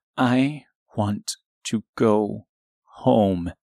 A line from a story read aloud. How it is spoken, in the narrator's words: said quietly and forcefully